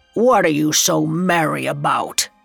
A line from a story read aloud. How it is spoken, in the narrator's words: he growled